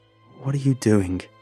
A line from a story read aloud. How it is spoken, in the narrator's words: Harry asked, his voice tight and angry